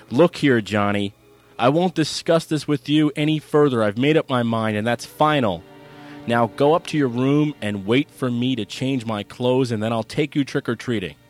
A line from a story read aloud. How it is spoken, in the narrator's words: D'Andrea found himself raising his voice as he said